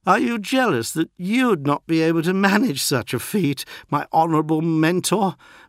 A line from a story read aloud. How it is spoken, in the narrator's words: Marduk slurred